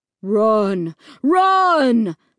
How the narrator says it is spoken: the voice on the loudspeaker boomed

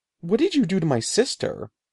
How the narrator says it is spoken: he cried

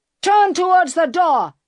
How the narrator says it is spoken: he shouted

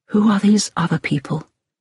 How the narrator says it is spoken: Hillary asked quietly

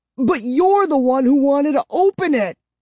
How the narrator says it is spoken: I shrieked

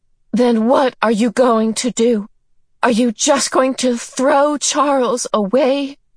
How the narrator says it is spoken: Meg could stand it no longer, and she cried out despairingly

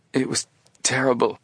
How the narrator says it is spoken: he answered shakily

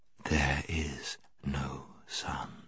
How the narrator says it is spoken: She repeated, in a softer and deeper voice

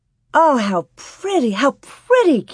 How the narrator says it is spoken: Carrie exclaimed

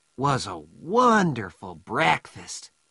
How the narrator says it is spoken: said Joe happily

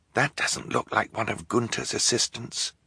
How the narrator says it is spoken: Klaus whispered to his sisters

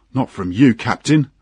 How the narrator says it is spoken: laughed the engineer

